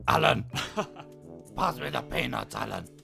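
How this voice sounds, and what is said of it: Imitates a velociraptor character. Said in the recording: “Do an impression of the Velociraptor in the plane from Jurassic Park 3.”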